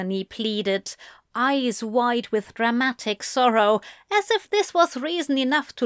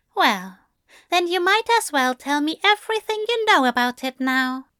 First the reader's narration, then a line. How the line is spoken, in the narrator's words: Aziraphel suggested, as kindly as he could manage